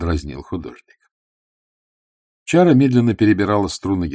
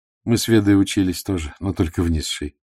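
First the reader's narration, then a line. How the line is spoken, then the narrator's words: Sighing. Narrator (Russian): вздохнула Эвдональ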